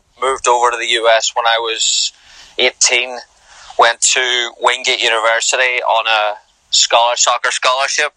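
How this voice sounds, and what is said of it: Northern Irish accent. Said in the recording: “I'm originally from Northern Ireland, clinging on to the accent these days”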